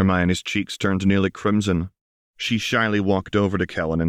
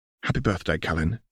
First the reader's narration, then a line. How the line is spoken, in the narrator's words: she said softly